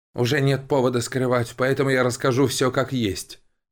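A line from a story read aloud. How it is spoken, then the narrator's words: Man sighing heavily. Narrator (Russian): тяжело вздохнув, начал мужчина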